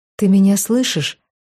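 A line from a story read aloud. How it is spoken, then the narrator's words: Whispered. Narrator (Russian): шепнула Вероника мужу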